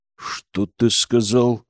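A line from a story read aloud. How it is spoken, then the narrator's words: Through gritted teeth. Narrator (Russian): процедил Громов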